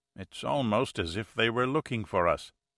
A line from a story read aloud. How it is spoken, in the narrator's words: Marquez murmured